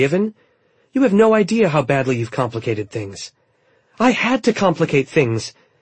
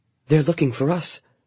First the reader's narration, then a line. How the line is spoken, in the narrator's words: Kestra mumbled